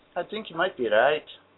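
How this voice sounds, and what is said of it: Put-on Irish accent. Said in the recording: “That sounded Irish. ... That did sound Irish”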